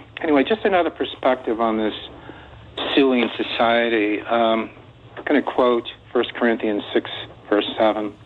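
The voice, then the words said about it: Shaky, emotional voice. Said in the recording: “My voice may be a little shaky”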